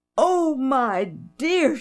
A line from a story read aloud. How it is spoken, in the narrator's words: exclaimed